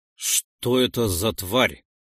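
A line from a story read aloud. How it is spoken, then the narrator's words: Quiet question. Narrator (Russian): негромко спросил Нойс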